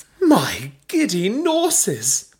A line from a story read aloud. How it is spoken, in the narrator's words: Belinda exclaimed when she saw that Bella had exclusive access to Cosmo Macaroon's official FacePage account